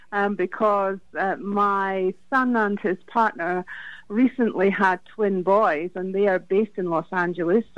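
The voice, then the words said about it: Scottish accent. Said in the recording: “your beautiful accent there ... my accent is from Scotland”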